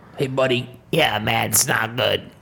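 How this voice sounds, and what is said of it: Imitates another person's voice. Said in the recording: “can you do a good impersonation of your dad? How would he talk about what's going on right now?”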